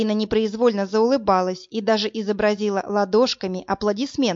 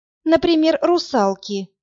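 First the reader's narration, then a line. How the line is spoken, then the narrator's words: Heavy sigh. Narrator (Russian): тяжело вздохнула Марина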